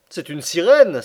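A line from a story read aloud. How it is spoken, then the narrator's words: Exclaiming. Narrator (French): s'écria Conseil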